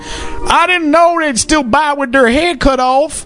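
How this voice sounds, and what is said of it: Put-on accent. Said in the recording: “What do you think of my accent? Pretty good.”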